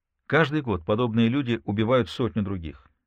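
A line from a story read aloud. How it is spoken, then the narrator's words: Plain. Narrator (Russian): сказал Зант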